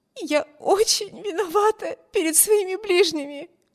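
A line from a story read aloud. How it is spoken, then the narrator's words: Sobbing. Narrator (Russian): всхлипывала Эмми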